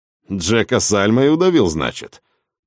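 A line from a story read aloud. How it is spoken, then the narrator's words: Contemptuous, through gritted teeth. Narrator (Russian): презрительно процедил капитан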